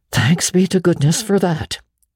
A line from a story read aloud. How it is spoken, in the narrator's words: breathed Marilla in devout relief